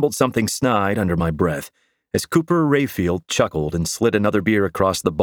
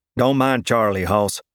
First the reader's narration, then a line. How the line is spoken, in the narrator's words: said the uncanny redneck archer with a thick southern drawl